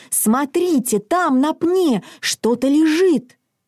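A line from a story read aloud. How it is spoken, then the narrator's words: Exclaiming. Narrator (Russian): Мац воскликнул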